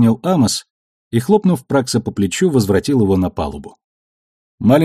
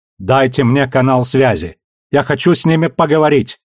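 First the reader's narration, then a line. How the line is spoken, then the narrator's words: Shouted. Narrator (Russian): крикнул он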